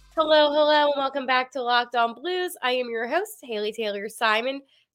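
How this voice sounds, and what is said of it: Congested, nasal voice. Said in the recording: “I'm a little under the weather... I sound very congested, a little nasally”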